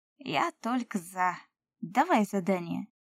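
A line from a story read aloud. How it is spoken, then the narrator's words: Cheerful elf reply. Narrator (Russian): бодро ответил эльф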